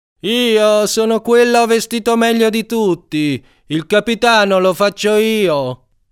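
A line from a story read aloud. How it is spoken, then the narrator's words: Shouted. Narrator (Italian): ha gridato Davide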